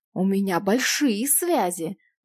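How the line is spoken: Menacing hiss. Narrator (Russian): угрожающе прошипел

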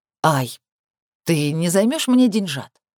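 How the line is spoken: Sweet muffled question. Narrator (Russian): Вопрошает мама уже благостным тоном, не забывая прикрывать нос ладонью

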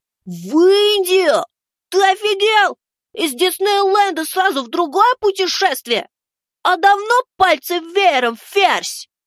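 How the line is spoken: Yelled. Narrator (Russian): заорал Максим

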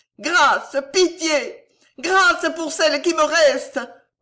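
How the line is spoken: Terrified, anguished screaming. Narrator (French): vociféra Gillot, ivre d'épouvante et de douleur

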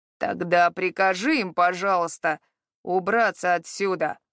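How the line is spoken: Pained growl. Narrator (Russian): прорычал Харад, потирая левое плечо, которое, видимо, сильно болело

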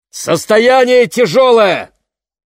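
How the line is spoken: Shouting over wind. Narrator (Russian): прокричал мистер Уокер, перекрывая ветер

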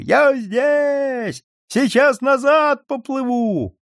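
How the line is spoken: Shouting to friends. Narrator (Russian): Карпушка кричал своим товарищам

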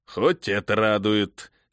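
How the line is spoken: Wry grumbling. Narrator (Russian): с кривой улыбкой проворчал Эрих

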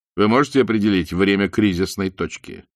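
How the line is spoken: Plain. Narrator (Russian): спросил Бауэр

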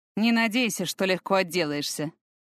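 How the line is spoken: Snorting remark. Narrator (Russian): хмыкнул Фортом

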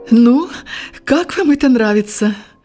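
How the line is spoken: Sudden exclamation. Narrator (Russian): воскликнула вдруг жена доктора

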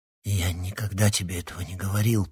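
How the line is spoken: Nervous whisper. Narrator (Russian): прошептал, волнуясь Никита

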